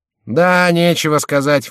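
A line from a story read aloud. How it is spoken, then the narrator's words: Grumbling. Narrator (Russian): ворчал Шико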